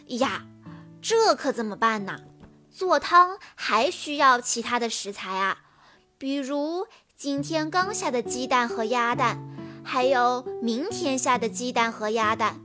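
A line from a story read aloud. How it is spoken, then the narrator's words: Sighing. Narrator (Chinese): 聪聪却叹着气说道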